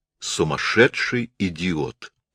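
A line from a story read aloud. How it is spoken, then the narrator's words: Calm. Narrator (Russian): сказала она спокойно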